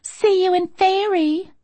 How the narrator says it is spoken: some chick had actually chirped

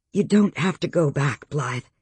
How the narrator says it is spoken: she said gently

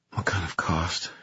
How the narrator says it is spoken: She whispered

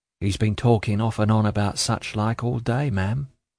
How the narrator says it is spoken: said Jenny softly

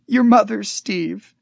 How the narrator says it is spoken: she sobbed

